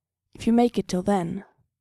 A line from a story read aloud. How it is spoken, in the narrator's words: Mikey said